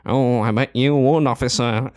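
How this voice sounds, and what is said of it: Put-on northern English accent. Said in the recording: “he starts doing a northern voice, and that's almost as good as his posh voice”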